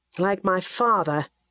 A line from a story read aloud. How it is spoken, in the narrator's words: Edgar said bitterly